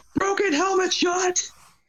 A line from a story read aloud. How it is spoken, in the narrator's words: I literally yelled